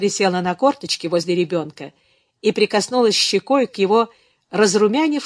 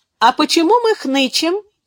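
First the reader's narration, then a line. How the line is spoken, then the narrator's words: Cheerful question. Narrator (Russian): весело спросила Беатрис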